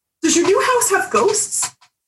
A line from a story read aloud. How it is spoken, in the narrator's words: blurting out